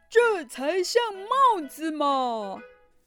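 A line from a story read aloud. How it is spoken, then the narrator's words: Roaring. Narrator (Chinese): 布鲁诺大吼着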